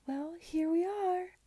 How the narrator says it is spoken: exclaimed Mrs

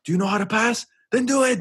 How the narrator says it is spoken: he would be yelling at players

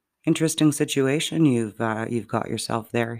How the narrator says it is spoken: he said calmly

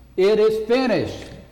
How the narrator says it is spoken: he said it in a loud voice

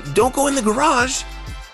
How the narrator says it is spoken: Penny yelled

